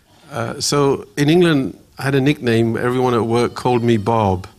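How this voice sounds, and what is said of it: English accent. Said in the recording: “I've actually got an English accent”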